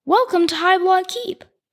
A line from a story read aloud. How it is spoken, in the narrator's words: Archie called out